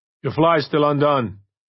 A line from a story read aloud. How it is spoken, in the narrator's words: Brennan called out after him